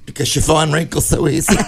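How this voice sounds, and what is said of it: Imitates another person's voice. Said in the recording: “Now, that was the Paul Lind accent.”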